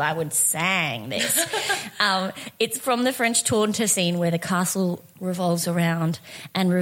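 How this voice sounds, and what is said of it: Usual voice. Nothing is said of it.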